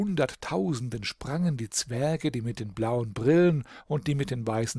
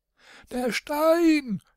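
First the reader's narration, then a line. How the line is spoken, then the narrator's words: Shouted. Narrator (German): schrie König Gravi Grüveling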